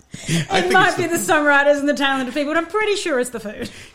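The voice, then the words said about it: Australian accent. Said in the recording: “an Australian ... I love your accent”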